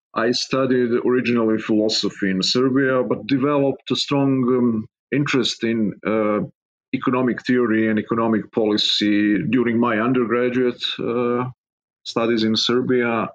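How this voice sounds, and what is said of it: Serbian accent, non-native English. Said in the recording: “as you can hear from my accent, I'm not a native-born American. I've been born and raised in Serbia”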